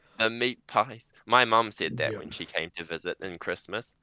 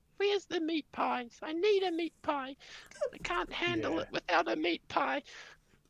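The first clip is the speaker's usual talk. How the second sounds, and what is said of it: Imitates another person's voice. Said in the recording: “Was that an impression ... Of your mother”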